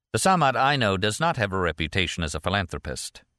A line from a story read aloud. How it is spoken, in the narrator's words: Martin said flatly